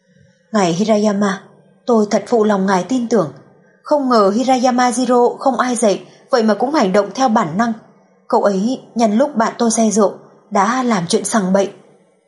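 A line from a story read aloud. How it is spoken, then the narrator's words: Resigned sigh. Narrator (Vietnamese): Cố Hề Hề thở dài, bất đắc dĩ nói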